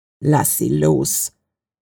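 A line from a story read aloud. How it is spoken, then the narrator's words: Deep, deadly growl. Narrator (German): sagte Victor mit einem tiefen, tödlichen Knurren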